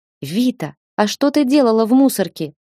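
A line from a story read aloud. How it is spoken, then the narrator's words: Exclaiming. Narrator (Russian): воскликнула мама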